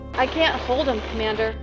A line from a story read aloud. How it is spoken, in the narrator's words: said